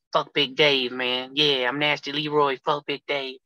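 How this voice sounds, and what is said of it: Imitates another person's voice. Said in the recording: “My Nasty Leroy impersonation ... If you only play the audio, people will think that's Leroy.”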